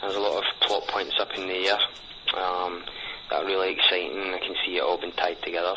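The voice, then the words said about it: Thick Scottish accent. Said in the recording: “from Scotland ... my thick accent”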